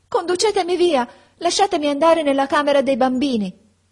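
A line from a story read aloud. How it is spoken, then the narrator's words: Shouting. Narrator (Italian): gridai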